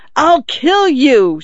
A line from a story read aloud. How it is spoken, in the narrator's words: she screamed